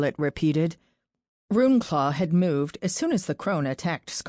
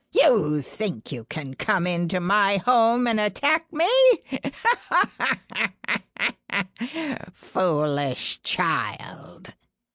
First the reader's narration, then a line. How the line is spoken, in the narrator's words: The crone cackled